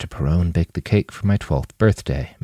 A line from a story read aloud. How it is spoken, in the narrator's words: Manny whispered